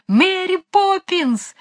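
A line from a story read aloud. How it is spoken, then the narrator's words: Shouting at full strength. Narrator (Russian): закричали они изо всех сил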